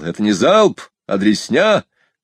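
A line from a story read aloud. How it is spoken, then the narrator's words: Yelling. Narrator (Russian): Комбриг заорал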